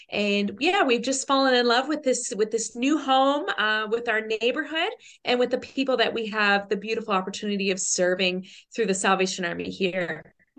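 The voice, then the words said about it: Newfoundland accent with Australian traces. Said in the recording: “you do have an accent ... we can't quite pick your accent ... I'm a Newfoundlander ... there's a bit of Aussie. You might hear a bit of Aussie in there too. So I'm a mad mix of a couple of things.”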